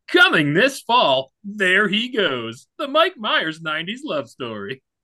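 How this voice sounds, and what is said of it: Dramatic movie trailer announcer voice. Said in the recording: “doing my movie announcer voice”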